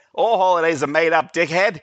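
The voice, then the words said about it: Imitates another person's accented voice. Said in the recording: “his voice with the accent”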